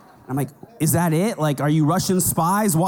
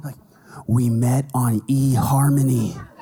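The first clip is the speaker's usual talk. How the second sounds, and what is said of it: Whispered line. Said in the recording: “Why are we whispering?”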